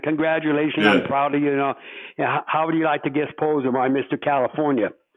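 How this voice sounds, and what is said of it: Imitates another person's voice, thick accent. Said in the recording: “in his thick accent”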